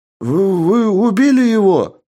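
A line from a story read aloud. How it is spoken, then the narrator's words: Exclaimed from crowd. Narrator (Russian): Воскликнул кто-то из толпы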